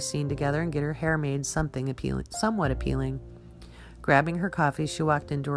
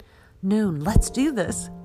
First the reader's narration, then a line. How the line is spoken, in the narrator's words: Jana laughed